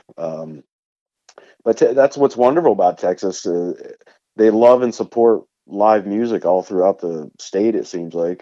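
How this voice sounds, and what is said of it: Country accent mixed with East Coast. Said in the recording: “I'm really digging the accent. You have this you have this uh, this uh, hybrid of uh, of country slang, but you you kind of you you veer off into the uh, the East Coast”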